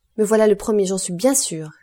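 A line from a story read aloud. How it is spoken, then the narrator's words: Shouted. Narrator (French): lui cria Morel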